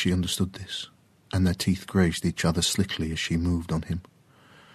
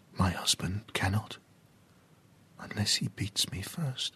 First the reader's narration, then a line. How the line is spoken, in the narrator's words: she whispered into his mouth